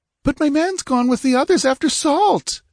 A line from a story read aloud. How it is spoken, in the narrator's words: she wailed